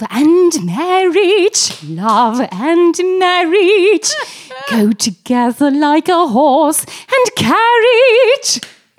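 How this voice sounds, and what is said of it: Sung imitation of another person's voice. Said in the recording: “you make a very good Julie Andrews impression.”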